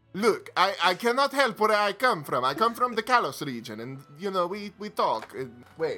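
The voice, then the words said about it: Put-on foreign accent. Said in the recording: “everyone has to have this accent”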